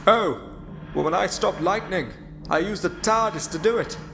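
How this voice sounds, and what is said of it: Speaks with a distinctive accent. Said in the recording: “Like your accent. I like the way you pronounce TARDIS.”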